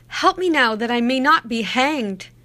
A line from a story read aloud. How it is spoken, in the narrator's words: cried the soldier